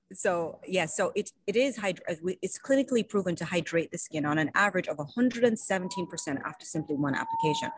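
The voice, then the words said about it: Speaks with a noticeable accent. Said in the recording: “I really want to hear her say hydrating because that was beautiful. ... I love your accent.”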